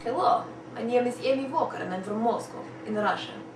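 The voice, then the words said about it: Put-on Russian accent. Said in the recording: “she demonstrates 21 accents in 2.5 minutes”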